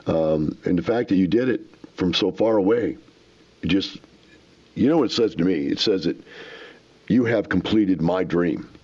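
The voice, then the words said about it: Choked-up, emotional voice. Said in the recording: “I'm a little choked up here, a little verkleft”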